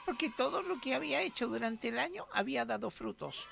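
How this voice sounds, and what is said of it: Child's voice. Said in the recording (Spanish): “con voz de niño”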